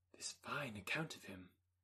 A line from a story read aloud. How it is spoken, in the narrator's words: whispered her aunt